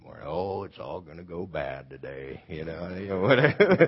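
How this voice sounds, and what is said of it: Gloomy Eeyore-style character voice. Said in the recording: “I'm sort of like Eeyore ... It's a bad imitation”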